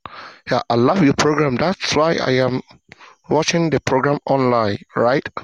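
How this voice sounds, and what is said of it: Ghanaian English accent. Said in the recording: “I can definitely hear a little bit of an accent there. ... I'm from Ghana.”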